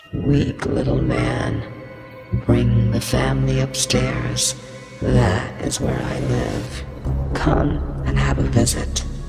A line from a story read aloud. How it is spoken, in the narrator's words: in a deep, unnatural voice, I grunted